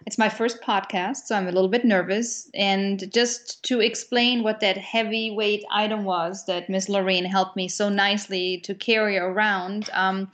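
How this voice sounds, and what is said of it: German accent. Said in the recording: “I'm German, if you haven't picked up on the accent”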